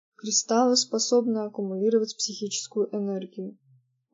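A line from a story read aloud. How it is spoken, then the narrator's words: Very quiet voice. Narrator (Russian): очень тихо сказала Кейтлин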